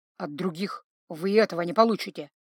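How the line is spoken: Exhausted mumbling mage. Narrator (Russian): пробормотал вымотанный ритуалом маг

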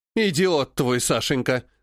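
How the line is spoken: Rude retort. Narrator (Russian): грубо бросила Живетева

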